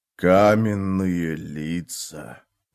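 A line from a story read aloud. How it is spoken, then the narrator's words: Hissing. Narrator (Russian): прошипел Карса Орланг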